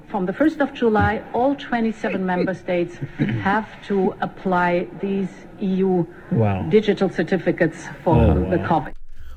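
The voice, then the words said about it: German accent. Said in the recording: “it's in a German accent”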